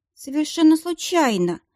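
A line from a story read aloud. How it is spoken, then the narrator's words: Muffled dull reply. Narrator (Russian): глухо ответила девушка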